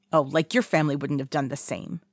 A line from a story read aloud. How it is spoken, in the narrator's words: he snaps